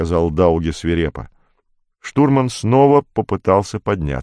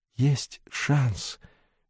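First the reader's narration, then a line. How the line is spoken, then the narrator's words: Barely audible mutter. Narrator (Russian): едва слышно пробормотал штурман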